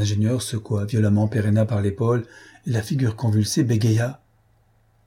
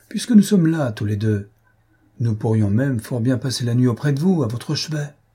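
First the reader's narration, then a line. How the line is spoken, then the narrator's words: Exclaiming. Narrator (French): s'écria Don Luis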